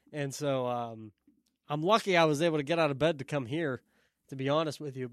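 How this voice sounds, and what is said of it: Worn-out, rough sick voice. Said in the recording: “my voice sounds a bit shot. I have been ill all week.”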